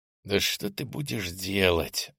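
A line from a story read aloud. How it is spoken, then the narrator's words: Angry sniffling whisper. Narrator (Russian): зло прошептал я персональное заклинание, шмыгнув носом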